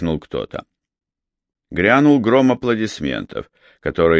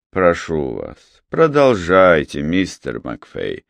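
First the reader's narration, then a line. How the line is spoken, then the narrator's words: Tired. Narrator (Russian): устало произнес сэр Уильям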